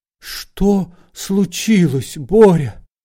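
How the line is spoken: Frightened question. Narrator (Russian): жена испуганно спросила

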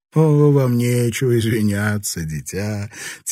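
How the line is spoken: Good-natured belly laugh. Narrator (Russian): добродушно рассмеялась, ее живот заходил ходуном

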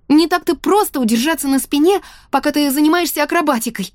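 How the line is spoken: Exclaiming. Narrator (Russian): воскликнула я

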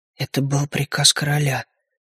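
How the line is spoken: Quiet whisper to oneself. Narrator (Russian): тихо прошептал я себе под нос

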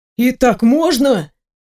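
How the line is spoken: Exclaimed question. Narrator (Russian): воскликнул Вион

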